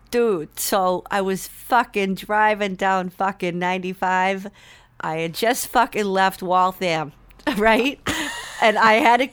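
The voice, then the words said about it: Thick put-on Boston accent. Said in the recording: “I can do a really good Boston accent. ... I can really like lay it on thick.”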